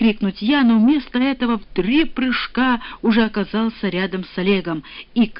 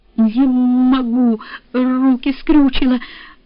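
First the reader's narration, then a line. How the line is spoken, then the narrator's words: Stammering. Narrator (Russian): начал заикаться он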